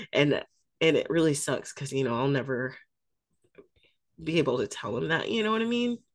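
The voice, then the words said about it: Choked-up, emotional voice. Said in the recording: “I got a little choked up. I get choked up easy, though. I'm a crybaby.”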